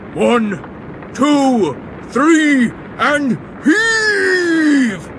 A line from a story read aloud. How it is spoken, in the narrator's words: he roared